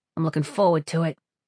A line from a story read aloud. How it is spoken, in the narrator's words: Sparrow said dryly